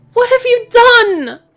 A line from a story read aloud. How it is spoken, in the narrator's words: Pip shrieked